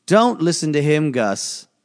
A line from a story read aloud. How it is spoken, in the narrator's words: the magician said